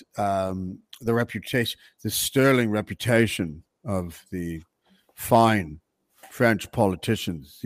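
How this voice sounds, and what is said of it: Deliberately bad put-on English accent. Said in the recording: “I'm using a very bad English accent. That's my Will Ferrell English accent”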